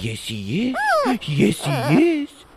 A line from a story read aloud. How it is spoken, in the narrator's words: he said in a baby voice